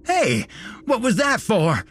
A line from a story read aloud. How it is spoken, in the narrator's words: he cried